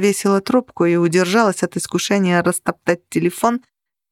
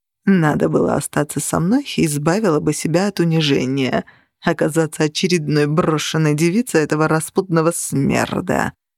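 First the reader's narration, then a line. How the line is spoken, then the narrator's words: Purring. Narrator (Russian): промурлыкал он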